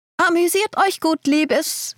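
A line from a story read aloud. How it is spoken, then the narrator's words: Knowing, called-out farewell. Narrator (German): rief sie mir mit einem wissenden Lächeln zu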